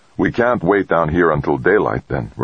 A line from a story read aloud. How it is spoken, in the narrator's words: Rodriguez said